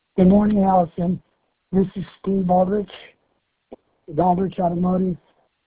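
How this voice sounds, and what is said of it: Hoarse voice from laryngitis. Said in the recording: “apologize for my voice. I've got severe laryngitis.”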